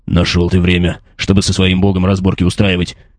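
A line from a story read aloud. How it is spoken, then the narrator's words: Grumbling. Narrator (Russian): проворчал полуорк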